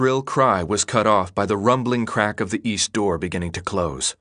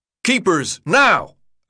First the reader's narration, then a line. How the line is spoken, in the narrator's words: Albie shouted